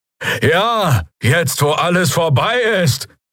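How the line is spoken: Creature shouting from crowd. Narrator (German): rief jemand aus den Reihen der Bürger, der Stimme nach ein Draxyl

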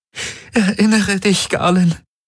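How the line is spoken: Pleading. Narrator (German): flehte Kirai

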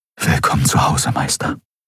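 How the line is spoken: Whispered. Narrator (German): flüsterte er

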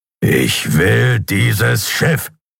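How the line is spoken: Growled. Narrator (German): knurrte er

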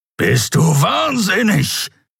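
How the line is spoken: Growled. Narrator (German): knurrte der Skriar

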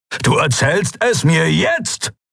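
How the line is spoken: Barked. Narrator (German): bellte er

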